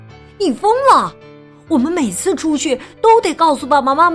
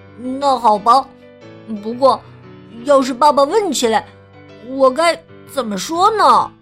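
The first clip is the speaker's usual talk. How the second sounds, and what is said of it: Quiet, grumbling complaint. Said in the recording (Chinese): “小声抱怨”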